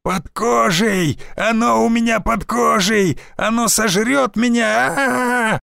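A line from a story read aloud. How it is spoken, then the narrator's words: Hysterical screaming. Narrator (Russian): охотник истошно вопил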